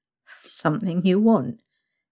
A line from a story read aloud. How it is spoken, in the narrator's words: you chuckle